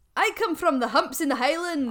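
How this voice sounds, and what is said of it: Put-on Scottish accent. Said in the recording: “I put on a Scottish accent when speaking to them ... Oh, gotta do a Scottish accent, haven't I?”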